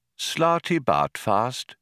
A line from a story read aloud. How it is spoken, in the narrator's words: repeated the old man quietly